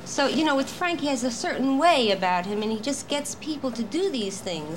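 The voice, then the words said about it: Strong Brooklyn accent. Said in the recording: “I have such a bad Brooklyn accent”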